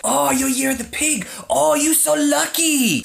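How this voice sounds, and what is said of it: Put-on Chinese accent. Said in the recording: “Sorry about the accent, but that's literally what she sounded like.”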